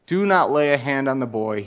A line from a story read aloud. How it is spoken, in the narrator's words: he said